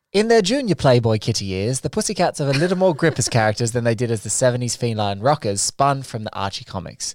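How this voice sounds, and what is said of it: Put-on British accent. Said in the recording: “I'm doing a British accent just to pep it up a little bit.”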